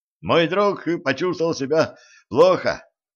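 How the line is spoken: Shouted while running. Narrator (Russian): крикнул на бегу стажер

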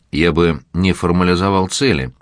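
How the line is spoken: Plain. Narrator (Russian): ответил Примаков

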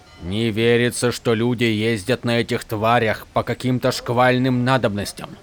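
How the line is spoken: Muttered. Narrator (Russian): пробормотал Натам

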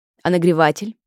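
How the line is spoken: Barking. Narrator (Russian): рявкнул Филипп

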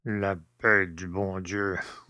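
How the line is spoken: Grumbled. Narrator (French): bougonna le père Jacques

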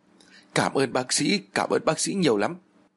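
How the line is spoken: Sobbing. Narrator (Vietnamese): Hân òa lên khóc nức nở

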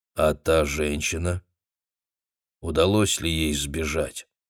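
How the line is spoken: Plain. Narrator (Russian): спросил Идрит

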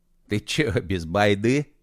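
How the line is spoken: Chuckling laugh. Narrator (Russian): хохотнул косоглазый

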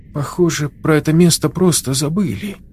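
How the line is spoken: Uncertain. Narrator (Russian): неуверенно кивнула Юля

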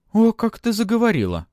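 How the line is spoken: Surprised exclamation. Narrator (Russian): удивленно воскликнула Лиза

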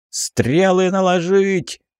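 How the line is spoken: Yelling. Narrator (Russian): заорал я

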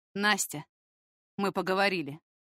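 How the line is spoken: Curt, dry. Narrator (Russian): сухо бросает Егор

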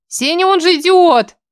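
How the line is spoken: Wailing woman. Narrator (Russian): взвыла подруга

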